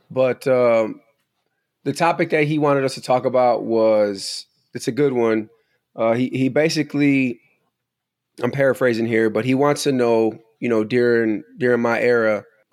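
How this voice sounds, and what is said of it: Raspy voice. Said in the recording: “my voice is probably a little raspy. ... I'm just getting over your basic uh, seasonal change cold.”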